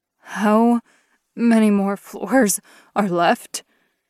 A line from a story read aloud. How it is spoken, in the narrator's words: Kristoff panted